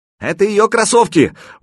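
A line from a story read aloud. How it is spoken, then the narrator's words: Shout. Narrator (Russian): крикнул Заточка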